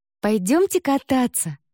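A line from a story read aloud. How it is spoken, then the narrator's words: Exclaiming, clapping energetically. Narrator (Russian): воскликнул Финли, энергично хлопая в ладоши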